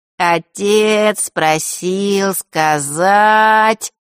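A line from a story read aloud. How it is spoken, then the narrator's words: Slow. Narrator (Russian): медленно начал Норт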